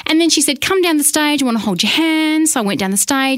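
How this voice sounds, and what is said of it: Australian accent. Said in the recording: “she recognized my accent ... She straight away said Australian”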